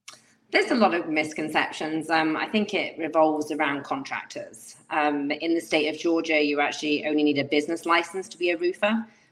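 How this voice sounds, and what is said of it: Speaks with a pleasant non-local accent. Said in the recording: “your beautiful accent ... I am envious of your accent ... I could listen to you talk all day”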